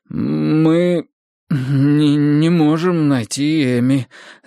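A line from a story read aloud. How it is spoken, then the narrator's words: Stammering. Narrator (Russian): заикаясь, признался я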